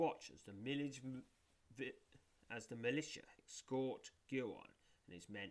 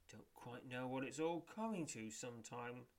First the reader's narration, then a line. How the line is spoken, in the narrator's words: sighs Pifor